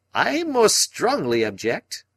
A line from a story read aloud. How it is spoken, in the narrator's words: cried Summerlee in a querulous voice